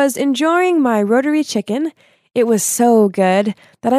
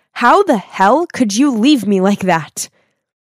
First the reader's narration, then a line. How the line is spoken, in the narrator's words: I angrily asked